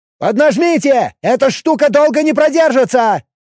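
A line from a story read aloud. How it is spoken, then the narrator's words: Yelling. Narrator (Russian): заорал Челар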